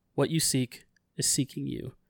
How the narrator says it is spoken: Hearing the faint cries of her daughter, Aisha whispers

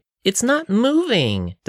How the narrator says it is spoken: the Thori cried

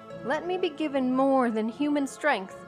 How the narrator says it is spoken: I cried

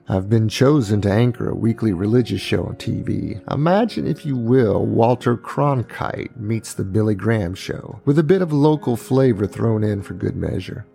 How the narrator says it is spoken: Speaking in his smooth baritone voice, he said

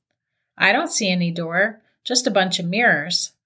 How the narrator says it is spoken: Charlotte answered

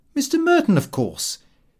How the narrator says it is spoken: I said rather indignantly

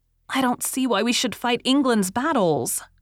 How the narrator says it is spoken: cried Rilla

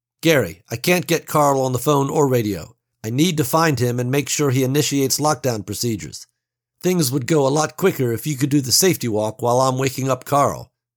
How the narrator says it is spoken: Johnson said

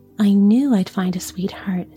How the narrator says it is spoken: said Mikko

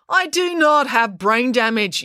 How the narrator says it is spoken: yelled Constable Pike

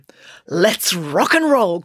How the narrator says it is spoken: cried Loretta with a crazed gleam in her eye

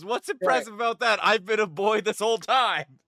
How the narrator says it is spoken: he literally yells

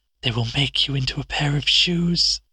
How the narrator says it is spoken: she whispered

